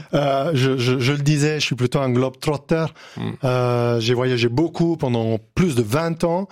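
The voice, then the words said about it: Italian accent in French. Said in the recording (French): “mon accent italien. Donc, finalement, je peux pas le cacher. Donc, vous pouvez déjà l'entendre par vous-même.”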